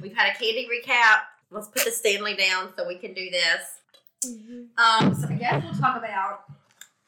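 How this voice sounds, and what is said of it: Sick voice with a cold. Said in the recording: “I'm a little under the weather ... I'm sorry my voice sounds funny. Our household is all under the weather.”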